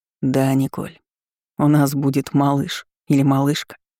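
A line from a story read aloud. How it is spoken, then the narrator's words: Soft male voice. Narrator (Russian): мягко заметил мужчина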